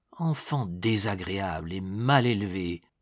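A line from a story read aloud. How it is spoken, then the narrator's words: Muttering to himself. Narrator (French): murmura en dedans de lui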